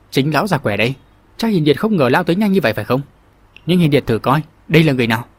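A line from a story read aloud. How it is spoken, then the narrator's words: Cold reply. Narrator (Vietnamese): Phả cái đã cất giọng lạnh lùng đáp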